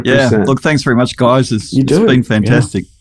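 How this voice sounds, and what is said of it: Australian accent. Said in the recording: “Even fighting through the accent ... Australian accents in the US are killer”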